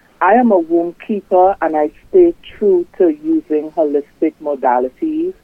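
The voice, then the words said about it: Strong Trinidadian accent. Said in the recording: “I am originally from Trinidad and Tobago... You can hear the strong accent”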